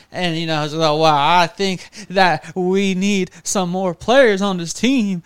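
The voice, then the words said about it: Imitates another person's voice. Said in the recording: “do my Jerry Jones impression”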